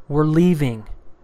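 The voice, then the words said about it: Raised, firm voice. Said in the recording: “I'm going to raise my voice.”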